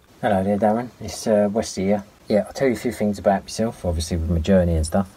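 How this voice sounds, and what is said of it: Untrained regional accent. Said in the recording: “it's very similar to the way that I would be speaking if I hadn't become an actor or a voice coach ... my voice would have sounded exactly like ... how I would sound if I hadn't kind of developed and worked on and changed my accent”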